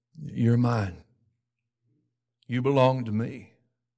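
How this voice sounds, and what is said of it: Whispered voice. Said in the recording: “whispering”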